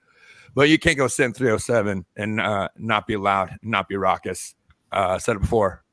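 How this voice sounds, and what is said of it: Hoarse, shredded voice. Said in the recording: “my voice is pretty shredded tonight ... recipe for laryngitis ... at least a little bit of a voice tonight”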